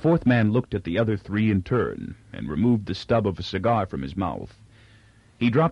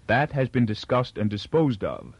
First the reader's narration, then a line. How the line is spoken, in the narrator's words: said Farrell